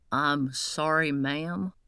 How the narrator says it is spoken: said with a southern drawl

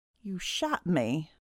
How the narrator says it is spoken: he croaked

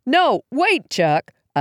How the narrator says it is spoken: yelled

